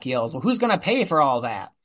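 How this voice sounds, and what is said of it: 1930s gangster movie voice, Edward G. Robinson. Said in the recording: “That's my 30s voice. It's not very good. ... somebody in a Warner Brothers gangster movie ... most of my accents end up being like Edward G. Robinson anyway ... A little bit Chief Wiggum too”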